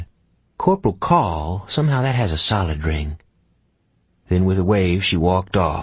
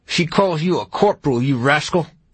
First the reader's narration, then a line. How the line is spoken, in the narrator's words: Gus said in a furious voice